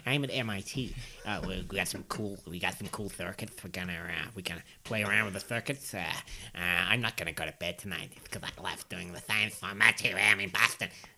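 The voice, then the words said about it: Impression of an MIT researcher. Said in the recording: “that's my impression of an MIT researcher.”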